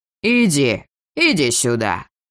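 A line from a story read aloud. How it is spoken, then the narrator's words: Menacing command. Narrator (Russian): грозно приказал мой невидимый собеседник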